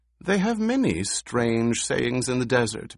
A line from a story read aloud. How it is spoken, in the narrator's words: Bute said, but his voice betrayed uneasiness